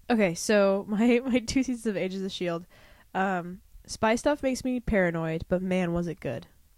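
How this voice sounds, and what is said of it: Gravelly, sick-sounding voice. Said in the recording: “my voice is all gravelly, because like, we got sick”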